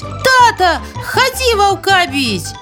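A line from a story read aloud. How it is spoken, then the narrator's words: Child shouting. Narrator (Russian): хлопчик … дык як закричить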